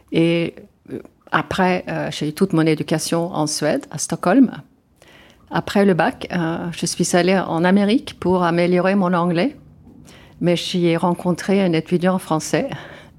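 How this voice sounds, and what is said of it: Swedish accent in French. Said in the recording (French): “d'où est-ce qu'elle a son accent? ... je suis d'origine suédoise”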